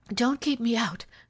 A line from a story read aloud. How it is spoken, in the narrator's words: she said in a breathless voice